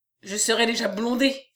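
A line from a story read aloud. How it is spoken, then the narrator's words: Inner exclamation. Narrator (French): s'écria-t-il en lui-même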